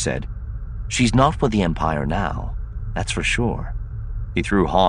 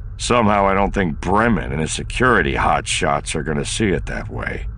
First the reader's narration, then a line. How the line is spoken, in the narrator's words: Han said grimly